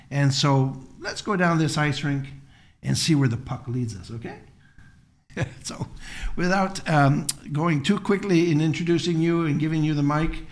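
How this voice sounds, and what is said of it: Canadian accent. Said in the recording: “you might detect a Canadian accent throughout today's podcast, eh?”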